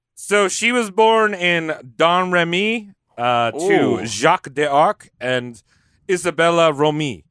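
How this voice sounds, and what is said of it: Put-on French accent. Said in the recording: “You're pretty good with a French accent”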